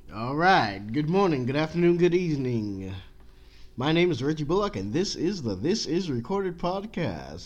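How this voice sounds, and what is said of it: Put-on radio announcer voice. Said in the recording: “Trying out my radio voice. It's pretty trash”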